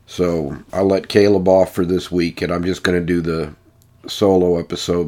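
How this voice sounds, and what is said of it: Congested voice from a cold. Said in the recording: “as you can hear in my voice, I contracted a pretty serious cold”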